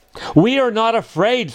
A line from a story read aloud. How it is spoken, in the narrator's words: screamed Frog and Toad at the same time